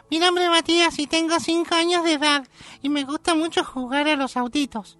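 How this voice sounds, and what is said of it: Adult doing child's voice in falsetto. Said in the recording (Spanish): “se nota que es una persona adulta que hace la voz de un nene. Yo hago un falsete”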